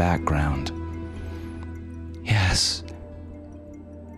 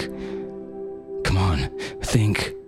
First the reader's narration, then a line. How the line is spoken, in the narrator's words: he panted